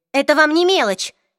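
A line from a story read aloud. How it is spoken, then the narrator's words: Angry objection. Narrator (Russian): сердито возразила Клэри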